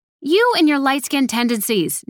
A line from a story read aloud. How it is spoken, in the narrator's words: Nettie snapped back